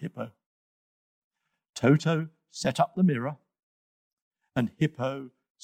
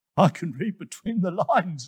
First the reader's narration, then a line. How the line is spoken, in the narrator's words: laughed